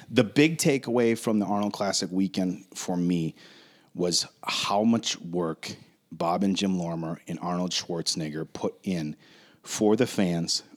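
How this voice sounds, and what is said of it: Slightly hoarse voice. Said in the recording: “Excuse me, I'm a little hoarse here.”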